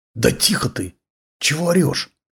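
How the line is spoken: Hissing. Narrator (Russian): зашипел Издревой

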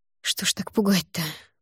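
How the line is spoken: Muttering under breath. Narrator (Russian): пробормотала я себе под нос

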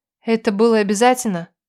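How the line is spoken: Sad question. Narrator (Russian): Грустно спросила я

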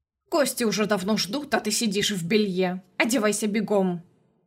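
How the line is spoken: Aunt barking. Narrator (Russian): рявкнула тетушка

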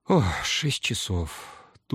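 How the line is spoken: Dull mutter. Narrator (Russian): тускло пробормотал я

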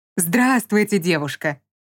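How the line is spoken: Joyful, beaming greeting. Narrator (Russian): Настолько радостно и лучезарно поздоровался этот тип

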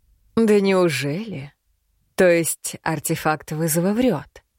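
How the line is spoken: Sudden insinuating smirking voice. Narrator (Russian): Внезапно произнес незнакомец вкрадчивым голосом, усмехаясь

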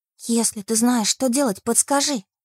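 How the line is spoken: Whispered request. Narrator (Russian): Шепотом попросила я змейку

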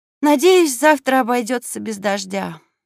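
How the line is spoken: Sighing. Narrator (Russian): вздохнула Скарлетт

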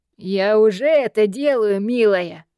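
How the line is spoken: Snide smirk. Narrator (Russian): Ехидно усмехнулся мучитель

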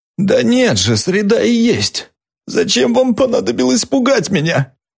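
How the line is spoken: Muffled piercing sobs. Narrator (Russian): Он уткнулся лицом в руки и пронзительно зарыдал

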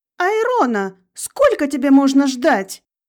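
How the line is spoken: Mother shouting again. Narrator (Russian): Вновь крикнула мама

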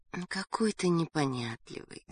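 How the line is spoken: Tender. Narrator (Russian): нежно сказала Галя

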